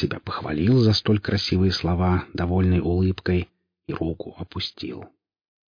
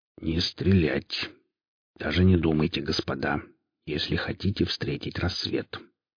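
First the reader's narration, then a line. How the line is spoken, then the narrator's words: Quiet. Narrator (Russian): негромко произнес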